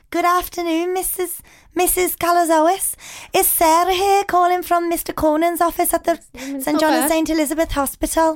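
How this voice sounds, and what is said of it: Put-on Liverpool accent, fairly decent. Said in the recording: “What about Liverpool? ... Okay, it's not bad, not bad.”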